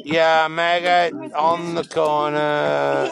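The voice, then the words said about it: Alien-like voice. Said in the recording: “you sound like an alien ... The voice sounds like an alien.”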